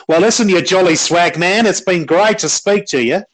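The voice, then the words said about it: Put-on imitation of guest's accent. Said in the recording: “Doing an impression of your accent”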